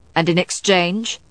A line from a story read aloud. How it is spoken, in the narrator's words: Matthew asked sharply